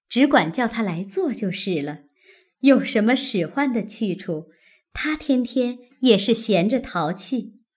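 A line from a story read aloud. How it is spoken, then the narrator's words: Laughing. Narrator (Chinese): 薛姨妈、宝钗等都笑道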